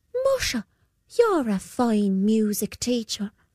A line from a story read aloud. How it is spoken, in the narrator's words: said the boy